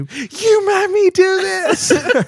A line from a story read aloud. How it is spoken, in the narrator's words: with my face full of tears, I scream